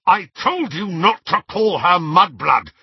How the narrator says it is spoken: snarled Harry

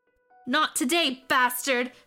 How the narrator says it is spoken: Samantha shouted

